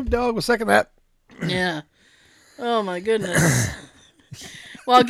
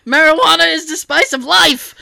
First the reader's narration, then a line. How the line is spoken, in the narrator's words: I kept shouting